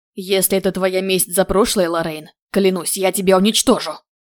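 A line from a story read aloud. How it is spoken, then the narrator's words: Angry growl. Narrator (Russian): зарычала я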